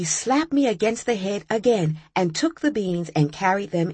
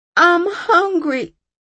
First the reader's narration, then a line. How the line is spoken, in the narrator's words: I cried with a mouthful of beans